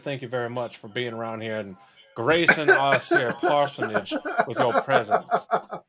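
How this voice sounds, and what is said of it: Put-on Southern gentleman accent. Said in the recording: “I don't know where this accent's going to end up ... the like kind of Texan, kind of general Southern to just Southern gentleman from South Georgia”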